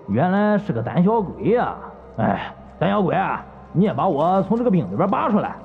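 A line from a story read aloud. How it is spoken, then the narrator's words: Gruff, smug laughing voice. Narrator (Chinese): 粗嗓子似乎是有些得意，笑道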